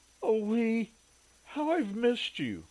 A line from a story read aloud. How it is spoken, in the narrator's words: sobbed into his chest